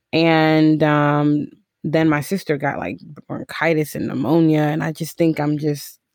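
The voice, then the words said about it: Congested, sick-sounding voice. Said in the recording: “I have a cold. So if you hear me with this whooping cough... your girl's a little congested.”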